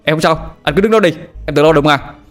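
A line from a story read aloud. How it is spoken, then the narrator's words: Shouted back. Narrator (Vietnamese): Tôi hét ngược lên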